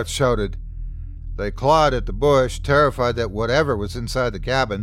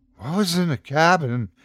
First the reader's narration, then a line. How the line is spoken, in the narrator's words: asked Johnny, panting